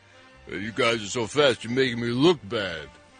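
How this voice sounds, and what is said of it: Bad imitation of a movie star. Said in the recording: “Doing a bad Sylvester Stallone impression.”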